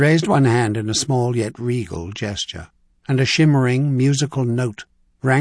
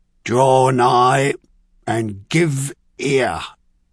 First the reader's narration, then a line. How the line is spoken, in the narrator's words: a deep-voiced chamberlain, a Carisian chamberlain, bellowed